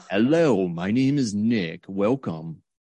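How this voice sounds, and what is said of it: Announcer-style radio voice. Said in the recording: “this amazing radio voice came out... You went from ... to like ... Such a transformation.”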